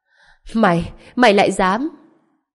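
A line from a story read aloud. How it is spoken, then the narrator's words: Wailing through bloody mouth. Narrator (Vietnamese): toàn bộ răng cửa của Tô Bân Thần hoàn toàn vỡ nát, miệng của anh ta đầy máu, che miệng gào khóc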